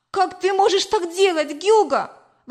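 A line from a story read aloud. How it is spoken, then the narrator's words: Exclaimed. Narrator (Russian): воскликнула я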